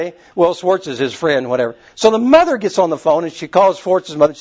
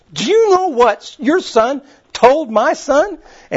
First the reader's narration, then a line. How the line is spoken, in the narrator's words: she says, screaming